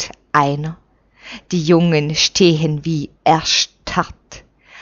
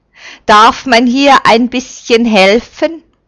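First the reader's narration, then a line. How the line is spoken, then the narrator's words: Calling out. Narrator (German): ruft er die Schweren an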